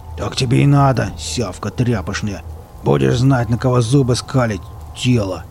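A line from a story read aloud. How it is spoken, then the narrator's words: Growling. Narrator (Russian): прорычал Велес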